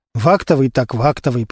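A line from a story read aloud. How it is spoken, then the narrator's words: Muttered under breath. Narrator (Russian): пробормотал себе под нос Костя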